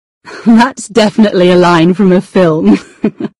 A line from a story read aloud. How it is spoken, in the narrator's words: she said, and laughed